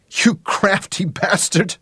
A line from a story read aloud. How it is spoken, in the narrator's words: sobbed